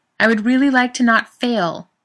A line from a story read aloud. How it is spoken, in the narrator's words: Zach yells